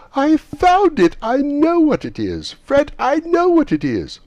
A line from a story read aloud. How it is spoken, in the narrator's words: At last the plump sister, falling into a similar state, cried out